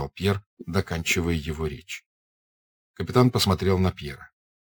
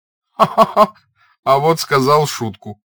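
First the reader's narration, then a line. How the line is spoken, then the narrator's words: Hearty cheerful laughter. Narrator (Russian): Француз весело сангвинически расхохотался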